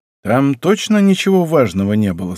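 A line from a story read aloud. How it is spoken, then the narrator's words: Plain. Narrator (Russian): спросил он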